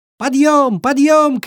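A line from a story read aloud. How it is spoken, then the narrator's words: Fawn shouting. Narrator (Russian): кричал олененок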